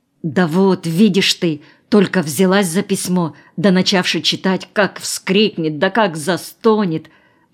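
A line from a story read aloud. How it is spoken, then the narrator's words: Worried whisper. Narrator (Russian): озабоченно зашептала Аннушка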